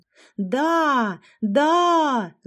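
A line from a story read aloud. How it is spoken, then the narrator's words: Crowd yelling. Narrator (Russian): завопила толпа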